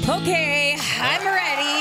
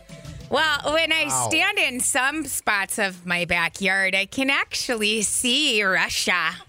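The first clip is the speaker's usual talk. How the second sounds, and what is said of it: Imitates another person's voice. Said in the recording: “a convincing Sarah Palin impression”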